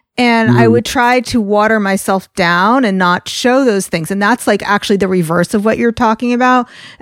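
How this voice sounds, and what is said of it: New York accent. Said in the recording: “I have this New York accent”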